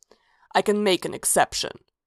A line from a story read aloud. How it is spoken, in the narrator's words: he growled